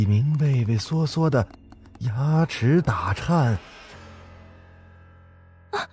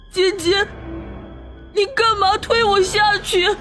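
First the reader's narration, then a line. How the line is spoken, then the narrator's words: Weak, fading. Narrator (Chinese): 说完后，李明终于昏倒了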